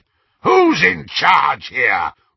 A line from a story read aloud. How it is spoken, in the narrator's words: roared Greyback, covering his moment of inadequacy